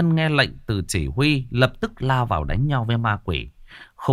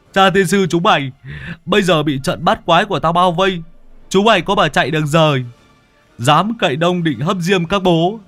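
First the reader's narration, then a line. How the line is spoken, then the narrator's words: Loud laughter. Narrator (Vietnamese): lão Tứ cười lớn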